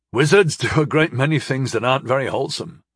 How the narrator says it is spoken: I chuckled

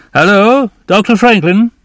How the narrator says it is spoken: a man called out

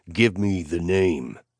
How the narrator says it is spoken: I growled

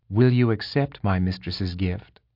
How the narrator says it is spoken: Kyber pressed gently

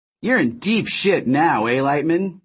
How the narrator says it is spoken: Notcher sneered

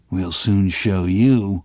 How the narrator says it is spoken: growled Müller

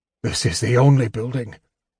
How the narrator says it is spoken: he mumbled

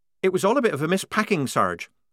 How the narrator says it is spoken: said Polly quickly, anxious to keep away from anything connected with missing ringlets

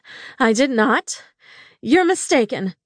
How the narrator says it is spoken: I panted

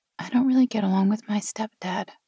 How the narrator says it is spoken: she said softly

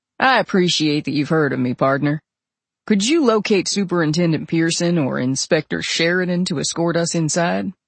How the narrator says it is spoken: In his best Ted cowboy drawl, he said

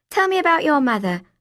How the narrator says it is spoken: I said, perhaps a little too eagerly

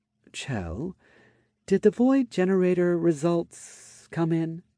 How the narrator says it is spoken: asked, hesitantly, worried that those reactions may have been caused by unfortunate news

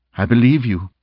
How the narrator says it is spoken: Mo stated

